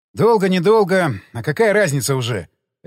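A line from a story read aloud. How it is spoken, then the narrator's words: Barking. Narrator (Russian): рявкнул Шумов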